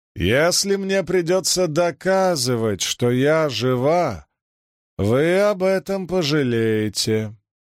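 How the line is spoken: Loud, heated, harsh accent. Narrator (Russian): громко провозгласила Сианит со своим жестким кайренским выговором, немного более запальчиво, чем можно было сказать по ее лицу

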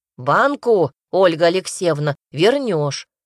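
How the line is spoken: Stern warning. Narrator (Russian): строго предупредил хозяин дома

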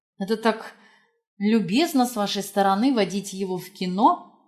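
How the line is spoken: Strained. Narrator (Russian): выдавила из себя

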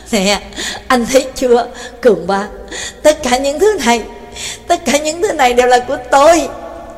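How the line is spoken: Laughing loudly. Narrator (Vietnamese): Mekin cười lớn nói

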